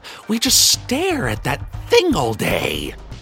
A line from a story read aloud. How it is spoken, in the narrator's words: they sneered, lovingly